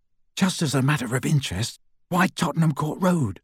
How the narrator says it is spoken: Ron asked Hermione

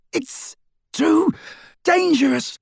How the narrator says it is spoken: Ron yelled

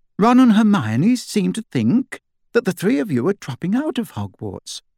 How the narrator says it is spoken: began in a light, casual tone

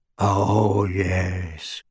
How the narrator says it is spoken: moaned Creature

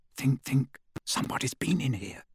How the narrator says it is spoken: Hermione whispered

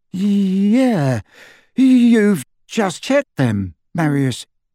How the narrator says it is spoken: his companion, who said in a slightly dazed voice

